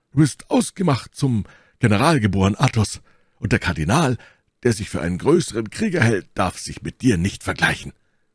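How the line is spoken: Calling out. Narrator (German): rief Porthos

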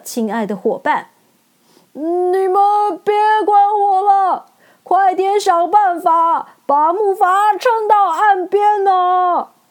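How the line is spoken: Loud, holding back sadness. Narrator (Chinese): 稻草人勉强压抑住心中的难过，大声的回答陶乐斯

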